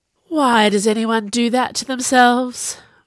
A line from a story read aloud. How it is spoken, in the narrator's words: Viola groaned